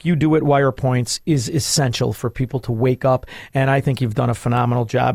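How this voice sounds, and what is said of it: Authentic Chicago accent. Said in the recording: “an authentic Chicago accent”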